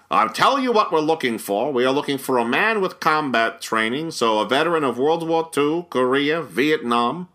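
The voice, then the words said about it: Imitated New York accent. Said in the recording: “perfect New York type ... this perfect I live in New York accent.”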